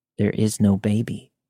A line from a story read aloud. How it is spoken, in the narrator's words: he muttered